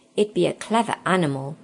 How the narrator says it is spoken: said Edmund,

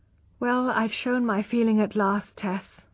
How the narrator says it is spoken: said, with a curious sigh, showing that his heart had overcome his reason

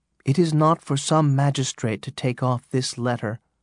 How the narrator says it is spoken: Hester replied calmly

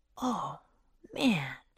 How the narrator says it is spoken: whispered Jack

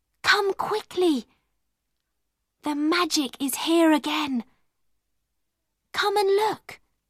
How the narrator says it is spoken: she whispered

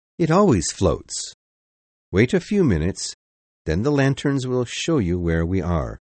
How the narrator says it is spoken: the captain said calmly

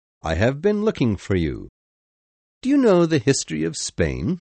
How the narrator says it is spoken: he said cheerfully

